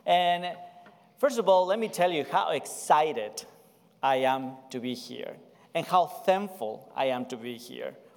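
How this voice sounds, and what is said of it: South American Spanish accent in English. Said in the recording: “where does my accent come from? I'm from the South, but not from the South of the United States. I'm from South America... I'm from Ecuador.”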